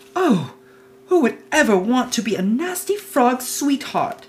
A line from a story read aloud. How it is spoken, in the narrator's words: she cried out